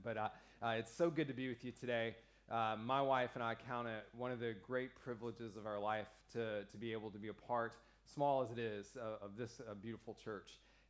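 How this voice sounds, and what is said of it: American accent. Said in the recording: “I'm the second American in 2 weeks ... when I come up front with my accent.”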